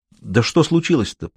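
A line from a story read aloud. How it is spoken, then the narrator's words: Soft, fearful repetition. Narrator (Russian): повторил я, стараясь говорить мягко, хотя и страшился услышать вполне определенный ответ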